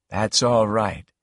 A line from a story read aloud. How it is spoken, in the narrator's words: he said quietly